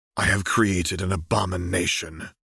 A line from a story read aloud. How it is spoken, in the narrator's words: replied through his teeth